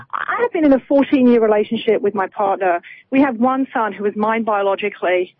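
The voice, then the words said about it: British accent. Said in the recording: “as you can hear from my accent, I'm not a U.S. citizen. I'm British by birth.”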